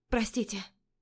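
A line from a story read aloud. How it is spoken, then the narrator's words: Mumbling. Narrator (Russian): Бормочу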